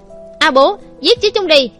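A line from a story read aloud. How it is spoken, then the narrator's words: Loud shout. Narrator (Vietnamese): Trang Nghiêu hét lớn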